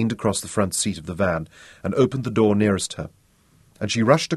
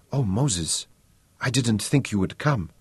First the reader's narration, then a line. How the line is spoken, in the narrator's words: whispered